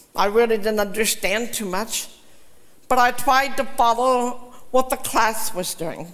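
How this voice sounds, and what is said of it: Slightly unusual accented speech. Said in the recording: “I know I still talk funny ... you really have an accent ... it's just a little bit different”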